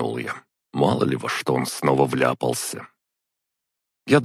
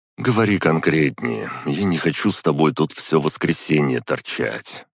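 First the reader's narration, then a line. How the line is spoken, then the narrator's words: Sigh. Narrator (Russian): вздохнул я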